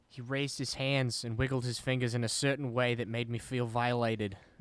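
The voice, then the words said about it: Put-on New Jersey-Australian hybrid accent. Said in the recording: “I don't know why I did it in a New Jersey accent ... That was an Australian accent, I thought. ... It's kind of a hybrid.”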